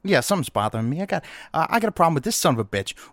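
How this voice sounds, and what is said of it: Put-on Italian-sounding accent. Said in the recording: “I'm not Italian. My accent is 2077 regional specific accent.”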